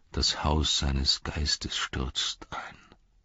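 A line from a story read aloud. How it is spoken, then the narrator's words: Sad. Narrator (German): sagte traurig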